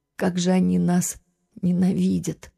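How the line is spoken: Sad sigh. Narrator (Russian): Немного успокоившись, печально вздохнула она

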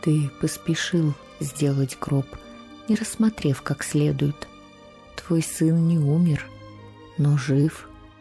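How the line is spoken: Quiet. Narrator (Russian): Преподобный сказал ему тихо

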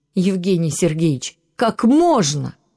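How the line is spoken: Real shouting. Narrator (Russian): Она не просто повысила голос, но по-настоящему закричала на доктора

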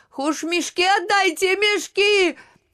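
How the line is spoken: Shout broken by sobs. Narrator (Russian): рыдания оборвали крик

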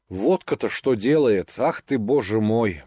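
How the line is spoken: Hungover muttering. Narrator (Russian): бормотал он, встряхивая своею больною головой

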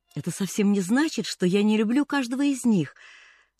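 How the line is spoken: Sighing woman. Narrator (Russian): вздохнула она

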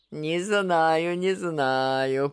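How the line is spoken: Drawled. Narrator (Russian): протянул Иван

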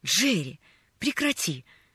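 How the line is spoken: Annoyed exclamation. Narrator (Russian): С досадой воскликнул он

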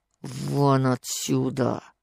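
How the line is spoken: Quiet, strangled, furious. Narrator (Russian): со злобой, со остервенением, Алексей Николаевич сказал тихим, придушенным голосом

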